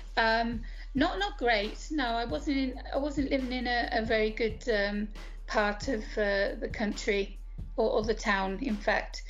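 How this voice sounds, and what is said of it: British accent. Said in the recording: “I'm from the UK, as you can tell from my accent.”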